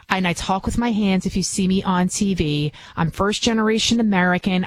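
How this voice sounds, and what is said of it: Bronx New York accent. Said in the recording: “I can be from the Bronx. Obviously, you can hear it in my accent, which I've been trying to get rid of”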